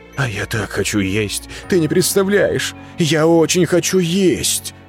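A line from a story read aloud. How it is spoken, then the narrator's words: Sobbing. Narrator (Russian): Он разрыдался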